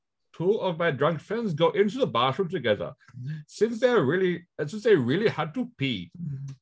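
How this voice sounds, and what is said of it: Put-on Indian-sounding accent. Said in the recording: “Let us go with a Swedish accent for this one. ... Actually, I was Indian. ... little Indian. ... Why have you gone Indian? ... I went weirdly Indian there for a second.”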